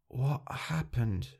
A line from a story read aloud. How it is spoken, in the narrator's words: she asked, her voice hoarse